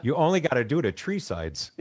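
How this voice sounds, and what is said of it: Chicago accent. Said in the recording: “this is my Chicago accent's going to kick in”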